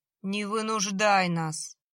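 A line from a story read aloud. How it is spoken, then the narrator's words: Almost plaintive plea. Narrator (Russian): почти жалобно попросил Гена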